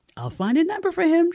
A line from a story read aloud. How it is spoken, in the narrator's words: countered excitedly, her usual optimism abounding